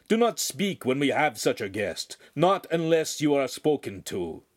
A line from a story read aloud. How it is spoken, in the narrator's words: the master said sternly